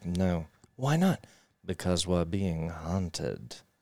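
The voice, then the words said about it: Imitates a movie character's voice. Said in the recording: “That's a good impression.”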